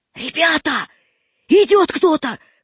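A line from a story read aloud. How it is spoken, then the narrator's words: Shouted. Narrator (Russian): крикнул Васька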